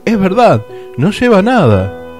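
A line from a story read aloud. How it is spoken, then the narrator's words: Excited crowd shouting. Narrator (Spanish): todos se animaron y comenzaron a gritar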